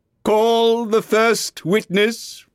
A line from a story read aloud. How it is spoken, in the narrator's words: said the king